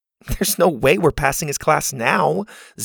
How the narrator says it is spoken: Zada said with a scoff

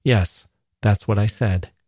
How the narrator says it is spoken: answered Adam dryly

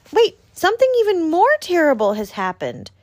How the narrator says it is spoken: cried Little Hedgehog

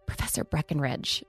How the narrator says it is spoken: whispered

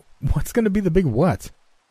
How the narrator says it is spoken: asked, chuckling at his childlike enthusiasm

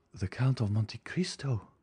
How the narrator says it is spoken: she murmured

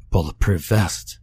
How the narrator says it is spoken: he gasped

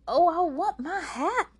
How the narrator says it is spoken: yelled

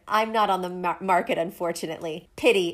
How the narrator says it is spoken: Aelin said

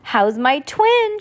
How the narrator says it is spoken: asked cheerfully

